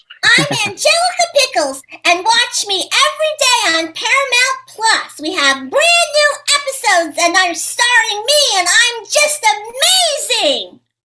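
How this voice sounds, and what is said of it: Cartoon character voice. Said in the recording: “do the Angelica Pickles voice ... That is phenomenal.”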